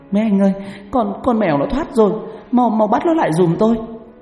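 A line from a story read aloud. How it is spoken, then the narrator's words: Panicked cry. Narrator (Vietnamese): Bà Tư hoảng hồn kêu lên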